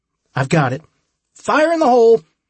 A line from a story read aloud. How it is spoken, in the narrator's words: Holly shouted